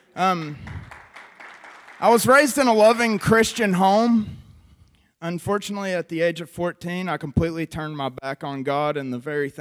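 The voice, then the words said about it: West Virginia accent. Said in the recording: “as you can hear from my accent. I'm from the mean streets of Beckley, West Virginia.”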